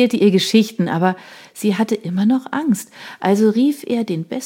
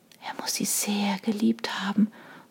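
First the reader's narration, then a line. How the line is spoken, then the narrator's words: Whisper to oneself. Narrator (German): flüsterte Sarah mehr zu sich selbst als zu den anderen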